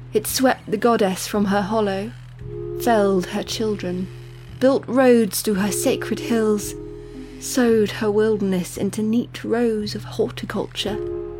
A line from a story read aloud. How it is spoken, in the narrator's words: the gardener sighed, as if this part of the story pained her